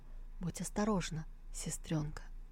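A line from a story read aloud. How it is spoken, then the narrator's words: Whispered, biting lip. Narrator (Russian): Сяолинь прикусил губу и прошептал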